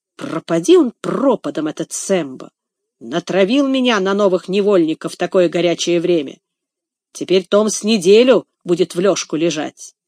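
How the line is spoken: Grumbling. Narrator (Russian): Легри ворчал

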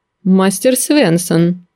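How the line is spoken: Cold. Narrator (Russian): холодно произнес он

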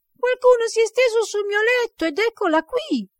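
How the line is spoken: Tiny little bear shouting. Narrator (Italian): l'orsetto, piccolo piccolo, gridò con la sua voce piccola piccola

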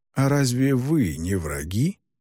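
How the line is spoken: Gentle question. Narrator (Russian): мягко спросил

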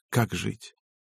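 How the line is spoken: Quiet, self-persuading. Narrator (Russian): словно убеждая себя в чем-то, тихо сказала

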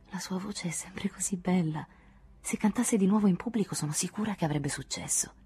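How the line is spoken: Murmured. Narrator (Italian): Anne mormorò

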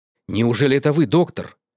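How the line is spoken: Boatswain exclaiming. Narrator (Russian): воскликнул боцман

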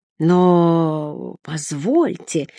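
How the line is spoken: Confused mumbling old man. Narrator (Russian): растерянно мямлил плюгавый лысенький грек

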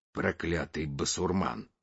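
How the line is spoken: Grumbling. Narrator (Russian): проворчал Спицын

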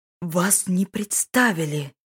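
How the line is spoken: Hissing. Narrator (Russian): прошипел Донгвер

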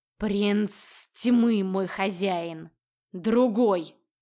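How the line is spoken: Growling mage. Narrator (Russian): Рыкнул маг

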